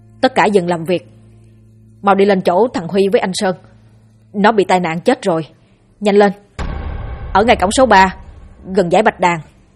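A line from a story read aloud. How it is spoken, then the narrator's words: Loud shout. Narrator (Vietnamese): anh hét lớn bảo mọi người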